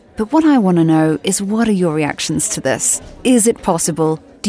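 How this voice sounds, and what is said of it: Speaks with a pleasant accent. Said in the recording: “What a lovely accent that woman has.”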